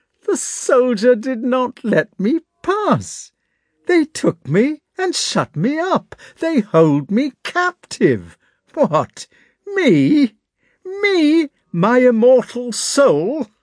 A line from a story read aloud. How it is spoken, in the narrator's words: he laughed till tears started to his eyes